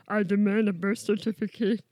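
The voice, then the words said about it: Attempted Yoda character voice. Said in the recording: “what if I did this voice and I sounded like Yoda? ... You don't sound like Yoda.”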